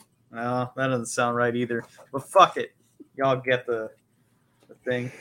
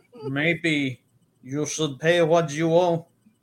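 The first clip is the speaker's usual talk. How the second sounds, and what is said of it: Tough put-on Russian accent. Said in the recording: “Maybe it's more tougher. Maybe it's Russian like this.”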